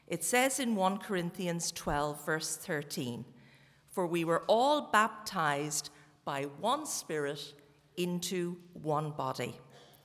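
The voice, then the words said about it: Irish Cork accent. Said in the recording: “You can tell from my accent that I was not born in Bangor ... I was born in Cork”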